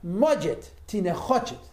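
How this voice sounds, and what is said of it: Angry attempted Russian accent. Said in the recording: “he angrily says to them in Russian ... I'm sure I ruined the accent terribly”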